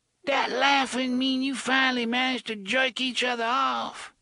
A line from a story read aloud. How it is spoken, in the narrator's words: Detta cried over at them in her hoarse, failing voice